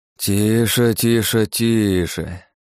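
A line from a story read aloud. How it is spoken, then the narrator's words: Babbling hiss. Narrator (Russian): Пролепетал, прошипел Алекс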